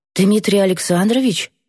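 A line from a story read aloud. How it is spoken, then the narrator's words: Bewildered breathy. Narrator (Russian): выдохнула растерянно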